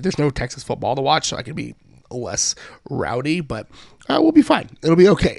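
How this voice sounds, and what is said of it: Weird-sounding, worn voice. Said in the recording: “My voice is just, this is just where I'm going to be for the rest of my life ... my weird voice”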